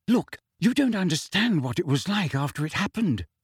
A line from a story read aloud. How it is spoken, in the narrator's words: said Hermione quietly